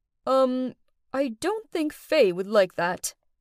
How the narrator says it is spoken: Megan, he hesitantly answered

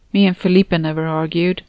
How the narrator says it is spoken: Anna said in a sad voice

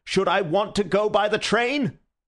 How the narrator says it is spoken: roared the other

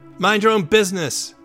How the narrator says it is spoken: The furious boy shouts back

